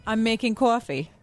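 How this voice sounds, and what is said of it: Thick New York accent. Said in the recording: “Do you have to say it with a quaff and the coffee and New York and talk? ... she's got a thick New York accent ... it's pretty thick”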